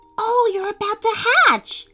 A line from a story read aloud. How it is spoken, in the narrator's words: Teddy said excitedly